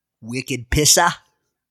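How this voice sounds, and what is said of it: Weak put-on Boston accent. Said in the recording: “As they say in Boston. ... It wasn't a very good accent,”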